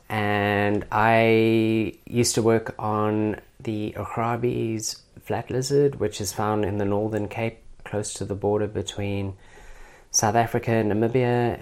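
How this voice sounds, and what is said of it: Hybridized South African accent. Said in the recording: “I'm obviously originally from South Africa. Every Australian is pretty good at um, picking my accent. ... it's kind of hybridized over the years.”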